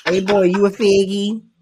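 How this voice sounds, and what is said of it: Put-on Baltimore accent. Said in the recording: “With the Baltimore accent too ... But the Baltimore accent”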